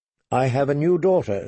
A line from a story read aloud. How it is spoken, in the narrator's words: she said, more stiffly than she'd intended